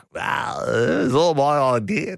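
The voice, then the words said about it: Imitates another person's voice. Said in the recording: “I can't do an Albo impersonation. I just slip into sort of a poor man's Bob Hawke.”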